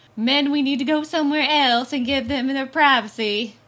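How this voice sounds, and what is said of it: Imitates another person's voice. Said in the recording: “That's my Kira Sedgwick impression.”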